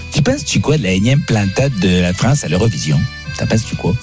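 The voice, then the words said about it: Put-on Québécois French accent. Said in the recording (French): “je vais te poser des questions avec l'accent québécois”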